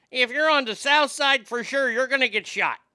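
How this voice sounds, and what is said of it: Put-on Chicago accent. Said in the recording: “That right there was a world-class Chicago accent. I just nailed Chicago. ... Chicago, they talk right at you.”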